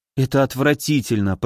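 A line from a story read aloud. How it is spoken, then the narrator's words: Muttering. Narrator (Russian): пробормотала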